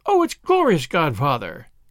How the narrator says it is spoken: cried Ruby, almost dancing

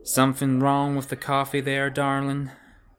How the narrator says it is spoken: she said, Her lazy drawl making it more of an accusation than a question

